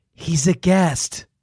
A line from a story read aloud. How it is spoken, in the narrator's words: Mom whispered